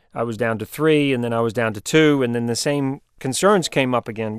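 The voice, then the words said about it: New Zealand accent. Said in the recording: “the New Zealand accent, but I can't really change it”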